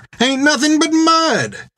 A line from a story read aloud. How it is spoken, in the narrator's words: hollered the boy back at him